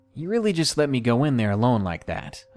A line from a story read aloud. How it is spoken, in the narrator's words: asked